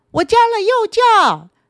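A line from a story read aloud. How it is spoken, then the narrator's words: Cawing. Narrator (Chinese): 乌鸦嘎嘎的叫着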